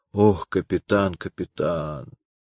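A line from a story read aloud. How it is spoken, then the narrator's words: Groan. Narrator (Russian): А капрал простонал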